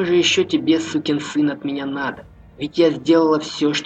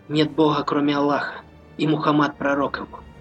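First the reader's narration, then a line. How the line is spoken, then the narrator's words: Quiet whisper. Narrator (Russian): тихо прошептала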